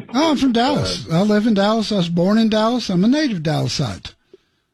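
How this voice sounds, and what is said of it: Texas accent. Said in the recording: “I love the accent. ... All Texas, man.”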